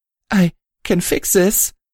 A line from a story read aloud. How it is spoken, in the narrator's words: she whimpered